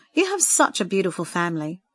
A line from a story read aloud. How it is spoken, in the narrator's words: Sandra said earnestly